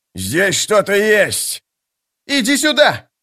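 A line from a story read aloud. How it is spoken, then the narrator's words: Yelling. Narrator (Russian): завопил Истин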